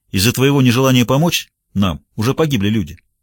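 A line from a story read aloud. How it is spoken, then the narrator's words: Sharp shout. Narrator (Russian): Пуласки прикрикнул на него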